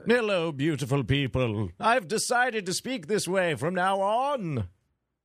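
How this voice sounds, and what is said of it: Silly Bane voice impression. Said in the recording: “silly voice ... your Bane accent must be more severe.”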